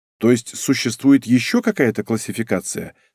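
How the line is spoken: Plain. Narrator (Russian): спросил я

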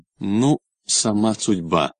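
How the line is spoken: Firm conclusion. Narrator (Russian): заключила она твердо

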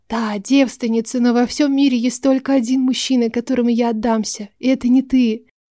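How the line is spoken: Happy dry-lipped whisper. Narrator (Russian): В груди затрепыхало от счастья, пересохшими губами прошептала

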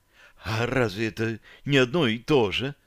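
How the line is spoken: Alluring husky female voice. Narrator (Russian): с волнующей хрипотцой в голосе поинтересовалась девушка

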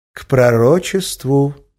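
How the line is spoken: Correcting, turned away. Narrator (Russian): поправил Эразм, повернувшись ко мне спиной

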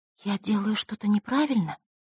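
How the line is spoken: Quiet whisper. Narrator (Russian): тихо прошептала та

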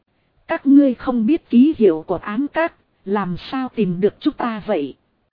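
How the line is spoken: Plain. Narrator (Vietnamese): Hắc Tử hỏi

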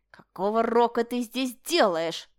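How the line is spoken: Growling. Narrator (Russian): прорычал он

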